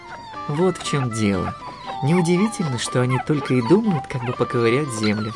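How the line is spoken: Plain. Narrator (Russian): сказала Анита

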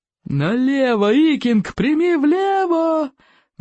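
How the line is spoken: Loud roar. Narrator (Russian): взревел Плевака крикливый

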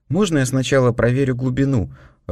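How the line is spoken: Timid question. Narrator (Russian): робко спросил я

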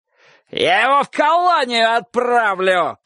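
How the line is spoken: Shouting. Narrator (Russian): кричал Соболев

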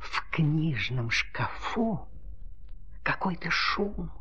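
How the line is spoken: Whispered. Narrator (Russian): прошептала ручка

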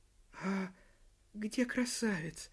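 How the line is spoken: Quiet curious question. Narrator (Russian): сгорает любопытство, тихо спросила Рваное Ушко

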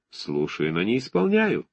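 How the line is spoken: Undertone. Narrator (Russian): добавил он вполголоса

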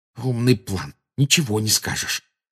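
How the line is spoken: Angry hiss. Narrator (Russian): прошипел Гарри, выплескивая злость

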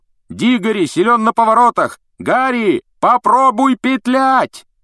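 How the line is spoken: Shouting after someone. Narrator (Russian): Вуд все еще кричал ему вдогонку

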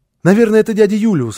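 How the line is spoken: Excited child's exclamation. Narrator (Russian): воскликнул малыш

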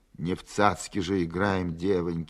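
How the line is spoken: Sigh. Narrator (Russian): вздохнул старшина

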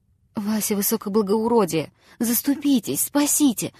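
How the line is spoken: Wretched man's pleading babble. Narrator (Russian): лепетал несчастный жид

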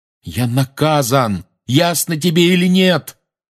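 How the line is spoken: Yelling. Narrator (Russian): заорал Гарри ей в спину

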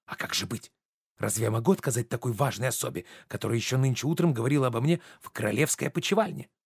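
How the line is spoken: Quiet. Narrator (Russian): Журден тихо

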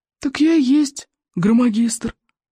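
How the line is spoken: Old librarian's hoarse croak. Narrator (Russian): прохрипел мятый косматый библиотекарь

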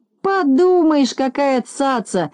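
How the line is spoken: Shouting after someone. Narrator (Russian): кричал ему вдогонку Незнайка

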